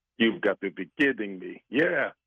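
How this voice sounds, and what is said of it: Put-on Greek accent. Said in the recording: “Great accent. ... That was my new Greek accent. ... that Greek voice”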